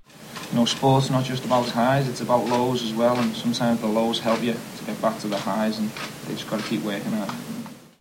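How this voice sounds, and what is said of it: Liverpool accent. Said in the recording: “even in a Liverpool accent”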